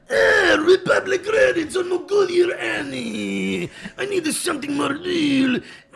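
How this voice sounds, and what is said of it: Stereotyped alien character voice impression. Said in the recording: “I do a really good Watto, which is similar to Forrest Whitaker in Andor. ... Kind of a stereotype. Maybe Italian, maybe Jewish.”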